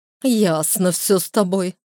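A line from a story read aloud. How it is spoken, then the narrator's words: Snorting. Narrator (Russian): фыркнула Лера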